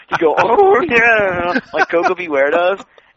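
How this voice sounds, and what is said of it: Imitates another person's voice. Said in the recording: “And you could tell my voice is shot, but, you know, Julius did it a lot better”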